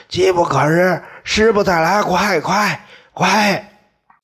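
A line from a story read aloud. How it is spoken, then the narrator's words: Hoarse shouting. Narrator (Chinese): 嗓子哑了，还在喊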